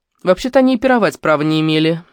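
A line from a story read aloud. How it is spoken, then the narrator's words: Snide. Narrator (Russian): ехидно сказала соседка тетя Валя Коврова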